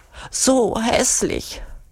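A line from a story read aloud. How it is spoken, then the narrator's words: Whining. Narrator (German): jammert Urugulla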